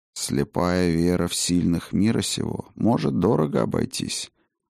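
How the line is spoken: Gloomy. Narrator (Russian): мрачно сообщил орел

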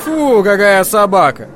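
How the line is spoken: Loud over laughter. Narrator (Russian): громко говорил Дервинт, контрапунктом к смеху

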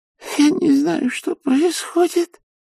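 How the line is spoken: Old woman sobbing. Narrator (Russian): всхлипывала старушка

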